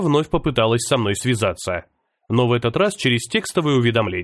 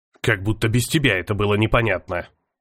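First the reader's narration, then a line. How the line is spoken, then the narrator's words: Grumbling under breath. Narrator (Russian): Проворчал я себе под нос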